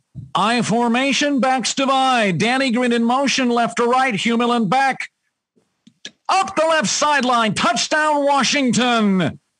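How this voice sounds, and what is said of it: Bob Rondo play-by-play impression. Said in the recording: “give us a Bob Rondo impression ... that's a really good Bob Rondo impression ... your pacing, your tempo, your staccato”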